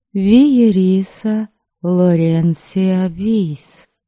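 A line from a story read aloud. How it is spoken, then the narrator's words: Woman introducing herself. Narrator (Russian): представилась женщина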